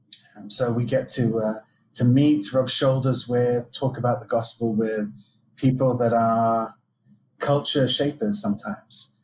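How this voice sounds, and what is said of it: Southern English accent. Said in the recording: “Is that a local Jaffa accent, or am I detecting something something else? ... You're detecting a man brought up in the south coast of England, in Brighton.”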